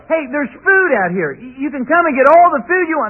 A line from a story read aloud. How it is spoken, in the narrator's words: they yell